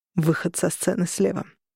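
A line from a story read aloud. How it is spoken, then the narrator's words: Muttering nearby. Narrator (Russian): пробормотал рядом со мной Корнелиус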